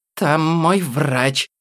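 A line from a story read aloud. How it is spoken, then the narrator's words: Hiss. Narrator (Russian): зашипела Мила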